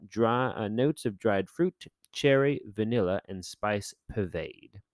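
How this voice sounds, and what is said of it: Imperfect put-on British accent. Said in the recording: “accent today is not very good, but I try to use a British accent”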